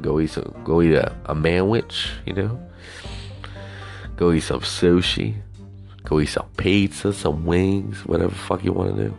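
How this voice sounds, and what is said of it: Southern twang. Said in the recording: “hobo with a Southern Twang”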